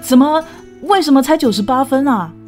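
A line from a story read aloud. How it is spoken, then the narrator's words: Provocative. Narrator (Chinese): 挑衅似的说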